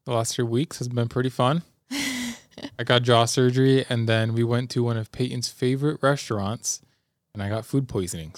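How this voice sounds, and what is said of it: Sick, strained voice. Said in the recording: “So that's why my voice sounds like this.”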